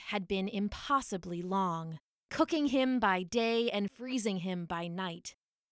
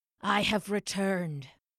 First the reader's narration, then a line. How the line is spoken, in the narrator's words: the champion said, his voice a wasted thing